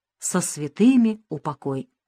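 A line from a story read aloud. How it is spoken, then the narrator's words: Sudden quiet singing. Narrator (Russian): вдруг тихонько запел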